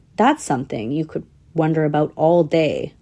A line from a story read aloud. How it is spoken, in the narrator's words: laughed Tsetse